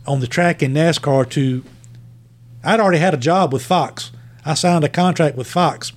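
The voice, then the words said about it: Strong Virginia Southern accent. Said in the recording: “your accent's a little bit strong, and we're trying to reach people outside of Virginia”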